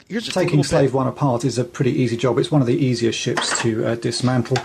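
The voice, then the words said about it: British accent. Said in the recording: “it's the accent. You know, I think he's British, obviously.”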